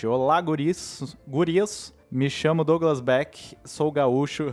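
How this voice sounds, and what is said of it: Put-on gaúcho southern Brazilian accent. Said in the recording (Portuguese): “eu fiz o sotaque ... acertou, acertou”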